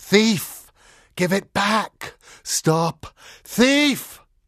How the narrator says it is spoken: One of them wailed and whispered, the other buzzed like a fat and angry bluebottle at a window pane, but the voices said, as one person

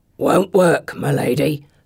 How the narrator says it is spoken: the one with the three teeth growls

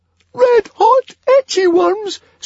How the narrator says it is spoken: squeaked Fishlegs

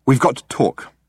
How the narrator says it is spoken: he said, urgently

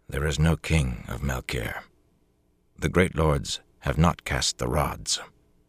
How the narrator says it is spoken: he said quietly, but in a tight voice

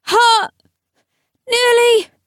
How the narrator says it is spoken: She still had a mouthful of blood as she began to holler

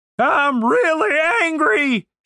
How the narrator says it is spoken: shouted

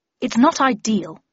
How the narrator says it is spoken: said Harris gruffly

